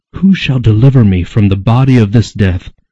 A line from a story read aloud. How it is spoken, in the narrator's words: In anguish they cried out